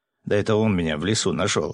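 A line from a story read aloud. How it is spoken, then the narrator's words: Laughing. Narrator (Russian): рассмеялся торговец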